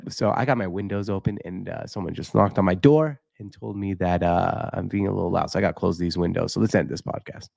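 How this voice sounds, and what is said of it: Speaking quietly. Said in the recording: “I'm trying to say it quietly ... I was just going to talk quiet for a few minutes”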